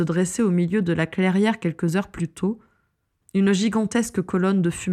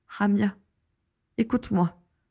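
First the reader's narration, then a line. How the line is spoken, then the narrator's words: Trembling voice. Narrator (French): dit Vera d'une voix tremblante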